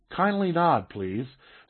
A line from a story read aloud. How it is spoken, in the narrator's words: said softly